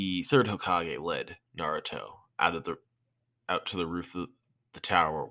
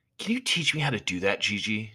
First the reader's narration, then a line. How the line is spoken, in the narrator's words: Naruto asked excitedly